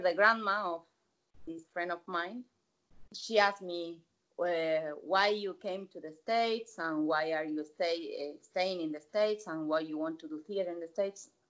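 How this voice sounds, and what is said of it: Non-native English accent. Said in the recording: “with your face and your accent”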